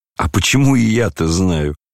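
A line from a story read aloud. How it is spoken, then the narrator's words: Spiteful laughter. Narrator (Russian): злобно засмеялся Рогожин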